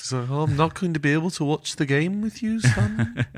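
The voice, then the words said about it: Weak put-on Welsh accent. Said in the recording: “your Welsh accent needs work.”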